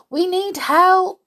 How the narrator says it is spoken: cried Mickey

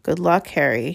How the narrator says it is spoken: he murmured

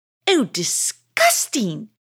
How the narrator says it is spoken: she said as she spat it out

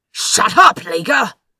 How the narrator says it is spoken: he snapped

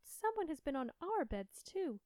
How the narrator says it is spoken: the others cried

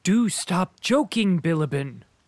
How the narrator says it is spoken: cried Belkonski

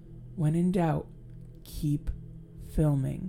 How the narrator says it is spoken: Esme whispered to Renee

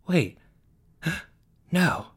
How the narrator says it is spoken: he said with a gasp

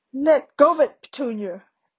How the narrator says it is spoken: roared Uncle Vernon

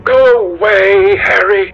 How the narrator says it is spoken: cried the lad

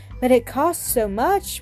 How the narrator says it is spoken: murmured Milly, half to herself

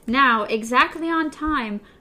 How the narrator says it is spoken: Rufus Hookey shouted out

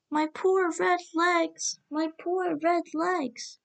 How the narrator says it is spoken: a wailing cry of

